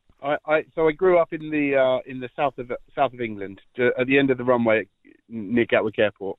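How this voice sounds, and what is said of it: Non-local, non-Irish accent. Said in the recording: “that's not a Laois accent”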